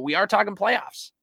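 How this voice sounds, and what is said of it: Jim Mora impression. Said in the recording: “my best Jim Mora impression,”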